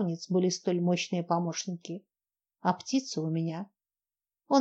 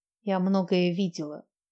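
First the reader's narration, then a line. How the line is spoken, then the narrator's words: Tired. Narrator (Russian): продолжала она устало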